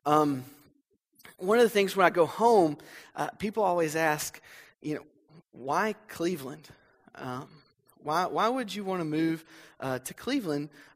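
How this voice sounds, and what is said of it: Southern US North Alabama accent. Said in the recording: “you'll hear my accent. I can't cover it up. I'm from North Alabama. ... I try to hide it, but it's there.”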